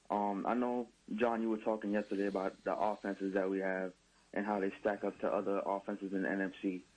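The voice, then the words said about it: American accent. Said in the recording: “you sound like an American”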